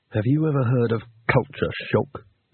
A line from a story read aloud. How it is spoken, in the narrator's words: He hissed